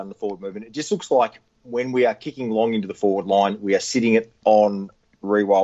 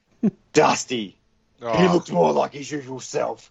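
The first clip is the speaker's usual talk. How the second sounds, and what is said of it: Imitates another person's voice. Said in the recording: “I'm going to read this out in my Bruce voice.”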